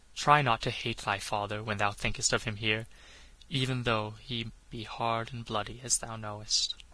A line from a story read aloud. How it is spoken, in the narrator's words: he murmured